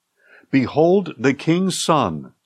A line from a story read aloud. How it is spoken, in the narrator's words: said Jehoiada